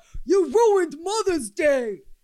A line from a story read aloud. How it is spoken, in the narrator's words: One man took it upon himself to yell